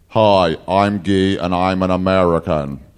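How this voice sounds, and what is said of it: German man's attempt at American accent. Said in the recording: “he did an American accent, and this was his accent ... It's not bad ... Sounds like Jeremy Irons doing it”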